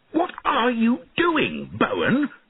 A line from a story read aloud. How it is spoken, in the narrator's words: he shouted angrily